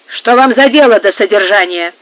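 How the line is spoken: Rude displeased question. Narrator (Russian): грубо спросил Пригонеро, которому разговор нотариуса не нравился столько же, сколько его посещение

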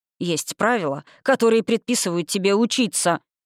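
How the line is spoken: Growling. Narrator (Russian): рыкнул куратор

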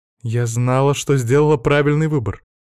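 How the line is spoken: Happy, smiling. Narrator (Russian): радостно улыбнулась Тея

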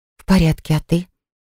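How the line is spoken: Quiet reply. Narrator (Russian): Так же тихо ответила я

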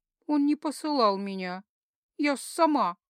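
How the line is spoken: Gloomy, self-loathing. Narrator (Russian): мрачно произнесла, ненавидя себя в этот момент

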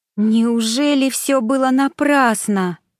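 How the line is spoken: Moaning. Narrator (Russian): простонала Саша

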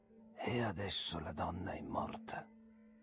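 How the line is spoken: Cryptic tone. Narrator (Italian): aggiunse in tono sibillino

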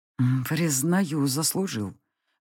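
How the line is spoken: Breathed through fangs. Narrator (Russian): выдохнул он сквозь заострившиеся клыки

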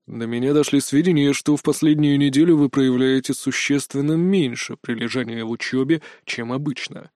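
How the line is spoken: Flat, dispassionate voice. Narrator (Russian): все тем же ровным, бесстрастным голосом сообщил директор

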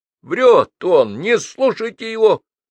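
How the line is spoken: Shout. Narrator (Russian): крикнул Паша

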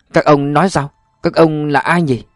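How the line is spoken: Trembling, stammering question. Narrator (Vietnamese): Tăng Quà run rẩy lắp bắp hỏi lại

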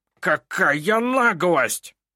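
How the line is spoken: Hiss. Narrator (Russian): прошипел Снивель

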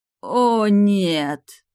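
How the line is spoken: Lawyer groaning. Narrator (Russian): простонал адвокат Мазарини

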